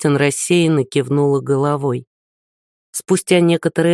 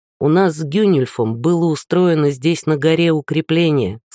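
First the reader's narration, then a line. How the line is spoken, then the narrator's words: Plain. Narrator (Russian): сказал он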